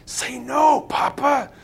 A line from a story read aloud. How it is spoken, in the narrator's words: Caleb whispered beside me